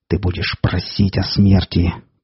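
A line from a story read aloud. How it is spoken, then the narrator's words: Hissing beast. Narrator (Russian): прошипел зверь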